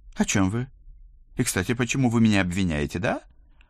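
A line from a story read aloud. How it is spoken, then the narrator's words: Exaggerated indignation. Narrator (Russian): Преувеличенно возмущенно накинулся инспектор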